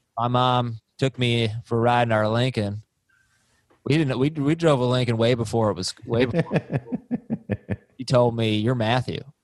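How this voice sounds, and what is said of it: Imitates another person's voice. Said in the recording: “that was your McConaughey impersonation? ... I don't think that sounds like McConaughey at all ... A 2 out of 10”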